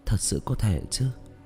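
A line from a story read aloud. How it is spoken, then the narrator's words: Muttered. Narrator (Vietnamese): Tạ Vũ Tình lẩm bẩm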